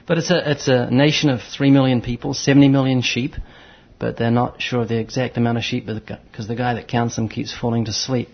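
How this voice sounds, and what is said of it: New Zealand accent. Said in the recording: “that funny accent that you have ... I'm originally from New Zealand ... the New Zealand accent is more English”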